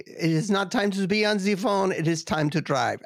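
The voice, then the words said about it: Put-on German accent. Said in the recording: “I'm making fun of the accent because I grew up with this accent in my house ... a German”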